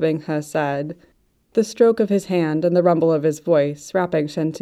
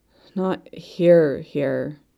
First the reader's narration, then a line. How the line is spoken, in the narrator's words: Sentingto mumbled into the cinnamon smoke pillow